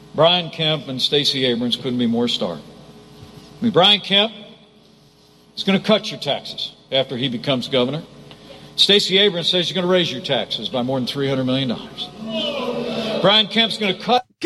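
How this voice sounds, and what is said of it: Adopted Southern American accent. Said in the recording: “the amazing southern accent he seems to have adopted, being from Indy fucking Anna”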